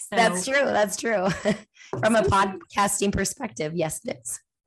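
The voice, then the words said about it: Hoarse, husky voice. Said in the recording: “Apologies right now for my voice. I do have a little bit of laryngitis going on ... her voice was kind of sexy”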